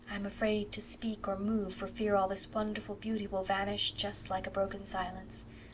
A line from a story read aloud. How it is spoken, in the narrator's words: breathed Anne